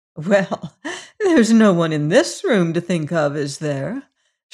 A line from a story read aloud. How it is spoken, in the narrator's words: she asked with her limpid laugh